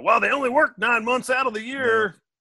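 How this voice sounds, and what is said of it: Put-on Southern accent. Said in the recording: “I did a southern voice... that voice accent just came out”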